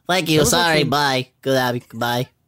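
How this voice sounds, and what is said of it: Small droid character voice. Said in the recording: “That's my D.O. ... He's doing his D.O. ... That's actually quite good. ... the best impression you've ever done ... resident D.O. voice ... D.O. impersonator”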